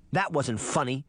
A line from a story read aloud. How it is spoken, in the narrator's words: she snapped